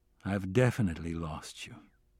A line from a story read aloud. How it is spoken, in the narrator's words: I said softly